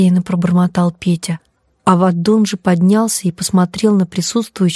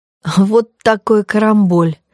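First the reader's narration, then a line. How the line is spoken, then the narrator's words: Laughing, sobbing, laughing again. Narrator (Russian): рассмеялся он и тут же всхлипнул и снова рассмеялся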